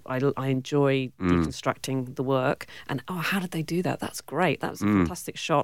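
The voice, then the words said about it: British accent. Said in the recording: “you have a British accent ... You've still got it”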